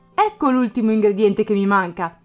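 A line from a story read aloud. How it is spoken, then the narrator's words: Exclamation. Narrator (Italian): esclamò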